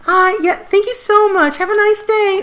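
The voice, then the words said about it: Higher-pitched, smiling customer-service voice. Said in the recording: “customer service voice ... my voice goes up I try to smile as broadly as I can”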